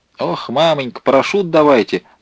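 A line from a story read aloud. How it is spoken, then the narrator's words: Clowning shout. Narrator (Russian): дурашливым голосом закричал Лотков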